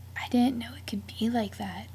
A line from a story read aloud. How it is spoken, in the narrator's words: she whispered